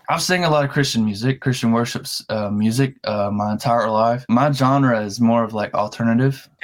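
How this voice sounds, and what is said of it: Slight Southern Alabama country twang. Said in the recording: “I sound country is because I'm from Alabama ... You got that little bit of an accent going on there ... A little bit of twang.”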